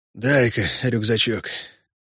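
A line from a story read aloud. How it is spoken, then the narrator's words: Strained, breathless. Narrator (Russian): выдавил он и тяжело задышал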